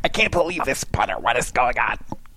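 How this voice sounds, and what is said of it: Imitates another person's voice. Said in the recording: “That's a really good impression of me, by the way.”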